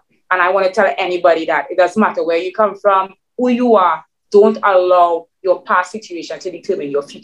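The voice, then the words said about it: Trinidadian Caribbean accent. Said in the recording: “my accent... my Trinidadian mix... my Caribbeanness”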